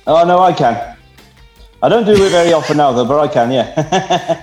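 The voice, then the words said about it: South Welsh accent. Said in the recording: “what the heck kind of accent is that? ... speak Welsh, having heard this”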